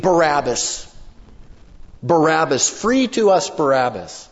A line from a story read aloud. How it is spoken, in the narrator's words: they're the ones that will be screaming